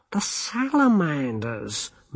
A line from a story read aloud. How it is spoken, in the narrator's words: moaned Twoflower